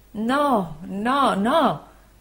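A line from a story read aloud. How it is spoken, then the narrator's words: Anguished voice. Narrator (Italian): rispose con voce angosciata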